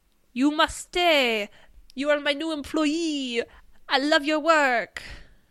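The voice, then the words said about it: Put-on French accent. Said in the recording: “I'm French now. Can you tell from my beautiful French accent?”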